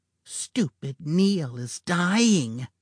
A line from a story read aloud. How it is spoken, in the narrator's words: Eve said in a hissing whisper